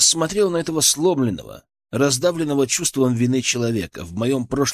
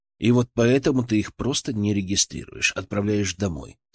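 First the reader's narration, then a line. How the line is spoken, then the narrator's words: Quiet question. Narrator (Russian): тихо спросил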